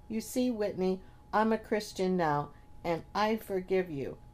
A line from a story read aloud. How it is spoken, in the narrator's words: Johnny took new courage and declared in an unquivering voice